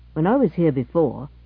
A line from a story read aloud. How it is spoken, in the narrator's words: said Gibson dryly